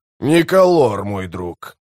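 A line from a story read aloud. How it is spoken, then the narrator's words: Grumble. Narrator (Russian): проворчал Кол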